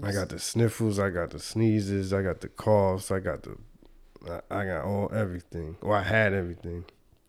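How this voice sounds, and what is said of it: Washed-out, congested voice. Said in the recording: “my voice is kind of washed. I'm recovering from a cold”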